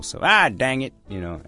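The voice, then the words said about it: Put-on Southern country accent. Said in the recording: “I use a country accent because usually it's country people that say, dang it. ... 有美国南方口音啊”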